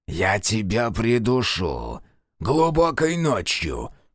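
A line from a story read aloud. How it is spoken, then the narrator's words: Hissed threat. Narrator (Russian): прошипел Кейран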